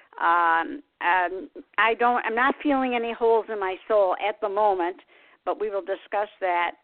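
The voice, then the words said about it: Slightly raspy voice. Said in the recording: “my voice kind of got a little raspy.”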